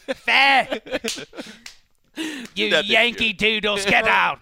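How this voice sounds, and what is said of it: Yelled mock British accent. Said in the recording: “Your British accent is something to behold ... it kind of involves yelling.”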